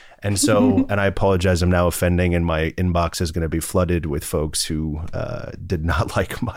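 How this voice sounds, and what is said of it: Usual voice. Nothing is said of it.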